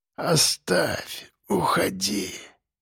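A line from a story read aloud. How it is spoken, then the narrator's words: Barely audible pleading. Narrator (Russian): Уже еле слышно просил он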